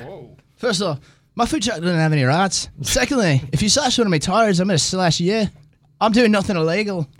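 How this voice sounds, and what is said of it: Put-on accent. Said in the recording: “I love that accent. That's good.”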